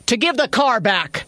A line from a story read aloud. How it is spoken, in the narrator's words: Maddie yelled